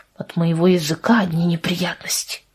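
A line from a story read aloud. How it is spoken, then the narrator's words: Low voice. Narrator (Russian): сказал он ей вполголоса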